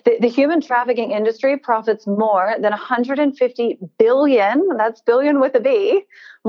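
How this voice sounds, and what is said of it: American accent. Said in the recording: “I'm American. I don't know if you can tell from my accent.”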